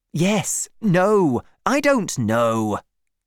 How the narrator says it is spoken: shouted

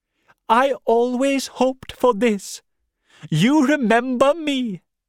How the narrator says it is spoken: cried

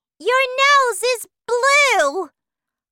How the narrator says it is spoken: cried Mrs

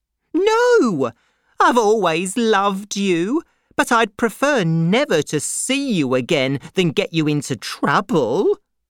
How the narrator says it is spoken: cried Miss Pross

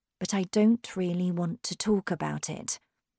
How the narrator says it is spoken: said quietly

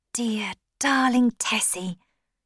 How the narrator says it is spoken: he whispered

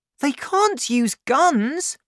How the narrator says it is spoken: cried

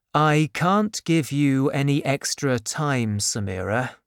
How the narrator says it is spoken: said sadly

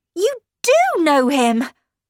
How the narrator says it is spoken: I cried

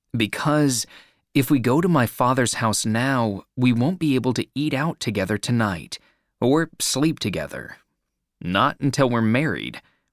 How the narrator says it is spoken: replied Michael

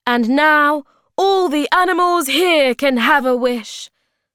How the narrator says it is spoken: the hobgoblin cried

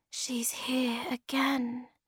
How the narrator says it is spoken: said Snork Maiden quietly

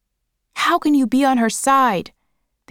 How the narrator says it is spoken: They shouted at him

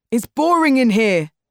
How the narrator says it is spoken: shouted Tariq

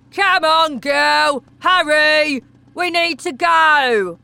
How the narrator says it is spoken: Wormwood shouted from the car window

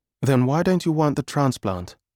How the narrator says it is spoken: Mum asked

